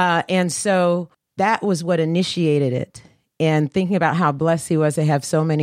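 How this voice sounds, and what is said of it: Usual voice. Nothing is said of it.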